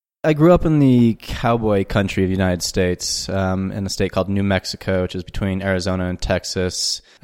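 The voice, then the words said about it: Non-local accent. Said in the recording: “You obviously have an accent that doesn't sound very local.”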